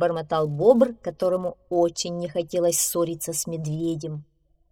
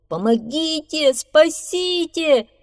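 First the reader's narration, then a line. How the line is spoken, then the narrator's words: Beaver shouting. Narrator (Russian): закричал бобр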